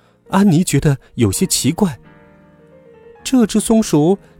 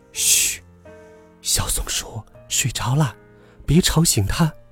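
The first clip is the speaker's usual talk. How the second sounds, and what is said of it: Quiet, hushed voice. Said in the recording (Chinese): “小声地说”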